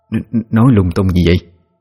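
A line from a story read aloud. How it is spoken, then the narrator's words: Stammering. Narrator (Vietnamese): Bà lắp bắp nói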